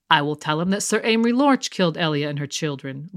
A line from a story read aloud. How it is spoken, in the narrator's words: Lord Tywin said calmly